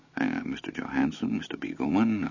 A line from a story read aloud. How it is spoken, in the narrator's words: a quiet, well-bred murmur